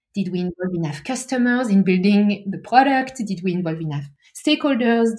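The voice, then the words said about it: Pretty strong foreign accent. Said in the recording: “I have a pretty strong accent, even, you know, having spent the last 10 years or so in the US, I still have my accent.”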